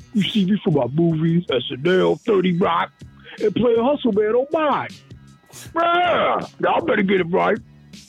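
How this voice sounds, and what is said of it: Imitates another person's voice. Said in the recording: “my impression of Tracy Morgan”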